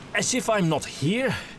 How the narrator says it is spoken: Gustav said breathlessly

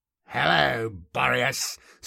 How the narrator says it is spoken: snarled Kolbadar

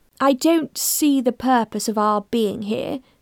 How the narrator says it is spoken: the inspector said to Rachel in a condescending tone

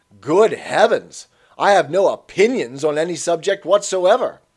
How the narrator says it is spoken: Kirk would exclaim

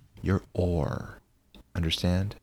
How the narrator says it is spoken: She whispered

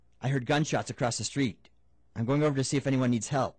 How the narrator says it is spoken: Wisey called Smitty quickly to say

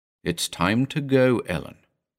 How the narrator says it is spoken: I said slowly

